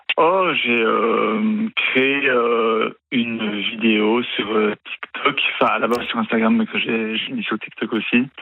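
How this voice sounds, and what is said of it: Slight Belgian French accent. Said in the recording (French): “Vous avez un petit accent ... je viens de Belgique ... région de Liège”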